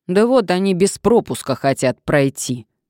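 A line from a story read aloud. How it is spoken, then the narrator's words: Indignant. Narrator (Russian): возмущенно указал охранник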